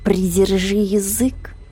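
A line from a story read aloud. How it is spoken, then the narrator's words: Purring. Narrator (Russian): сказала, почти промурлыкала Детта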